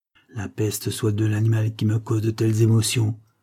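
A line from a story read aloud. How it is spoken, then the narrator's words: Viscount grumbling. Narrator (French): grommela le vicomte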